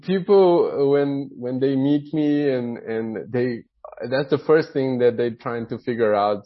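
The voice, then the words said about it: Brazilian accent. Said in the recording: “If you are wondering where my accent is ... I'm originally from Brazil. That's where the accent comes from.”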